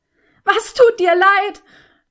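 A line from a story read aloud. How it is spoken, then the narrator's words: Desperate dying roar. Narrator (German): brüllte an mit der allerletzten Kraft eines Menschen, der sich dem Tod geweiht fühlt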